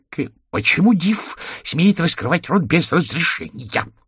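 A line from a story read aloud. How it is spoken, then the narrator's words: Through gritted teeth. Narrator (Russian): процедил Кантемиров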